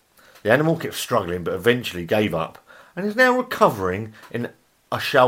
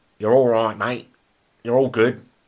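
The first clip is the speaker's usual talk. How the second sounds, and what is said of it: Put-on Australian accent. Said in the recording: “they're saying that in an Australian accent.”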